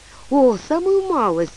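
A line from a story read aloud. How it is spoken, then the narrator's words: Sad voice. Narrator (Russian): сказала она грустно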